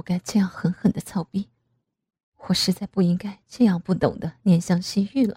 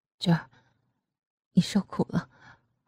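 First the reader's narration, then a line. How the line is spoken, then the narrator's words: Trembling voice. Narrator (Chinese): 阿奇 声音颤抖的说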